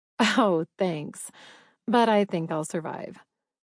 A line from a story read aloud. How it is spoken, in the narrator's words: laughed